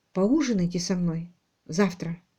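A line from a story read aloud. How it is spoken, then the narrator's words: Quiet. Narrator (Russian): Алик тихо произнес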